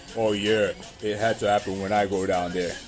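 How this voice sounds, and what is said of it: Deep croaky imitated male voice. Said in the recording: “that's how his voice sounds ... he got a deep frog ass”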